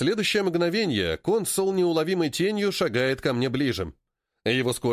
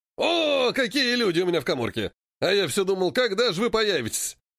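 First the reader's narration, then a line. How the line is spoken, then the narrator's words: Hearty laughing, portly man. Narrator (Russian): расхохотался патрон, пузатый интендант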